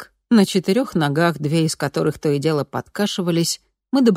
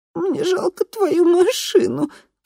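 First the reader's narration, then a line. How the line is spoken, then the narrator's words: Sobbing. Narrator (Russian): всхлипнула я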